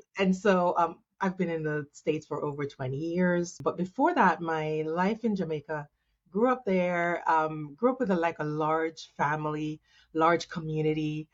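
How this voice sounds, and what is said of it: Jamaican accent. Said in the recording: “I'm originally Jamaican, if you can hear my accent.”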